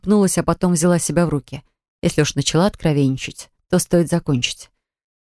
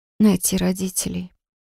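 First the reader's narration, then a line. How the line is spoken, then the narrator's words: Whisper. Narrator (Russian): прошептала я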